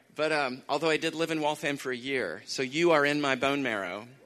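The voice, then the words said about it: Texas accent. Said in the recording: “I'm very conscious of some Texas accent coming through”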